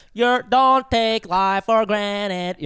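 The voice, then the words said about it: Put-on Filipino accent while singing. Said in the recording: “was that like in a Filipino accent?”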